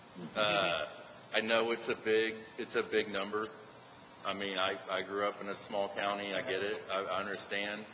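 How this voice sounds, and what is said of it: East Texas accent. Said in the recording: “I'm from a small county in East Texas, if you can't tell by the accent.”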